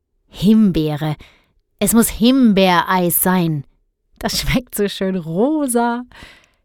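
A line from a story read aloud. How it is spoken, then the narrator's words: Giggling. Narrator (German): kicherte Guntram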